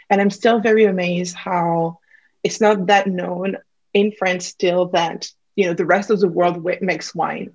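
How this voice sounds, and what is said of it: French accent. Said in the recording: “as you can probably pick up from my accent, I'm originally from France, Burgundy”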